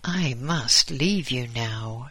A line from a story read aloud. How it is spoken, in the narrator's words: said Arnold's friend